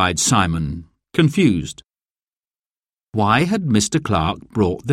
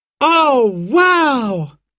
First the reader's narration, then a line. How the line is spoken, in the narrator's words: cried Simon and Sarah